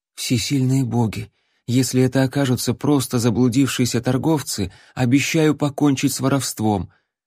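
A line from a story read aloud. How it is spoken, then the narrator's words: Pleading prayer. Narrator (Russian): взмолился Алан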